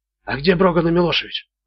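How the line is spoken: Whispered. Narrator (Russian): прошептал

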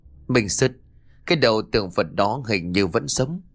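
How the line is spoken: Stammering. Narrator (Vietnamese): Nó lắp bắp nói

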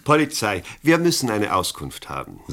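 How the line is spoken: Plain. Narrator (German): sagte Chance

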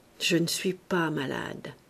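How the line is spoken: Low, worried, to oneself. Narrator (French): Il dit à voix basse, comme à lui-même, d'un air de constatation inquiète

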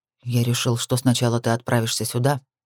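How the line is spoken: Deliberately calm explanation. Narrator (Russian): пояснил он нарочито спокойным тоном

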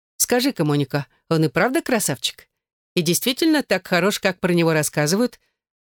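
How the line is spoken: Playful joking tone. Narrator (Russian): Она говорила шутливым тоном

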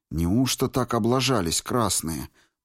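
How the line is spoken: Whisper. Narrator (Russian): прошептал Федор

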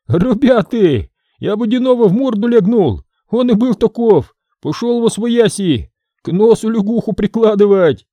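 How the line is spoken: Impatient shout. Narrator (Russian): Никишка не вытерпел, закричал

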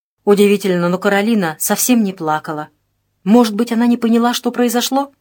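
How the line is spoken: Sudden groan. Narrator (Russian): Марта Дворская неожиданно застонала

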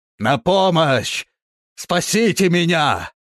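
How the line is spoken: Prolonged shouting. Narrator (Russian): Он кричал долго

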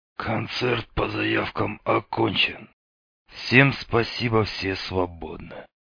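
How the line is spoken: Spoken through teeth. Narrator (Russian): процедил Меченый в удаляющейся спины

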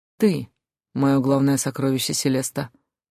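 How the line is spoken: Solemn declaration. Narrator (Russian): торжественно заявил Джун

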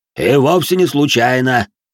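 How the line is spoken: Deep bass voice. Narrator (Russian): пробасил де Жориньи

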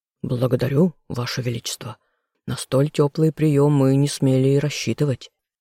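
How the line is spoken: Plain. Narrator (Russian): ответил ему Амдир

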